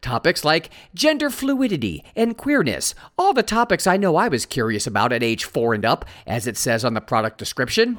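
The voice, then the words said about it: Sarcastic tone. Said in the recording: “You're being sarcastic. ... Yes, I am.”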